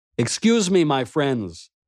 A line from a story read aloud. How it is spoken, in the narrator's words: called out